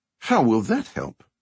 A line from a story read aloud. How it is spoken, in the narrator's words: I asked